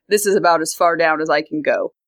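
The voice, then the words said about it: Woman straining for deeper voice. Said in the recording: “trying to do a male voice, I cannot lower my voice more than about here ... that doesn't sound like a man. That just sounds like a woman trying to sound deeper”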